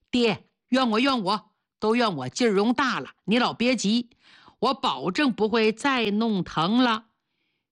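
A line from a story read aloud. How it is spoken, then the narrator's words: Smiling, soothing. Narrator (Chinese): 严信总是笑着安慰他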